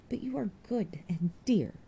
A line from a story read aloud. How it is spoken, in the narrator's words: she murmured